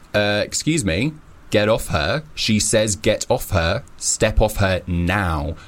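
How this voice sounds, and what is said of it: Stern, deep put-on voice. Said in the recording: “put on a stern voice ... put on my deep voice”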